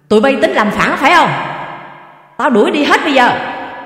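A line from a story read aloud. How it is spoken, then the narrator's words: Furious shout. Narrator (Vietnamese): Ông quát vằn mặt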